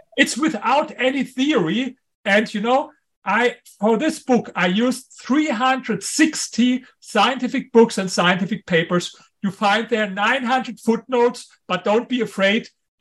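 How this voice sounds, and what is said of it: Strong German accent. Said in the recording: “my strong German accent ... Your accent's great.”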